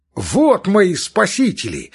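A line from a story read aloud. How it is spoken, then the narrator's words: Joyful shout. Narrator (Russian): закричал, увидав вошедших Петрицкий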